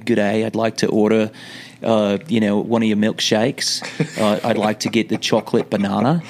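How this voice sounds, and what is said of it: Put-on Australian accent. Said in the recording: “speak the whole time with an Australian accent”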